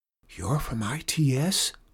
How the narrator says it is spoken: Lauren whispered

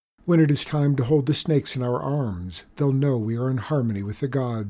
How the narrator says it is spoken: his father said

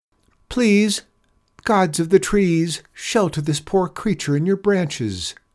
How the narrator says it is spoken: she called out again

